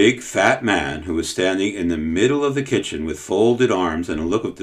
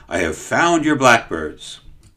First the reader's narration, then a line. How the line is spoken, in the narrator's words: the man called excitedly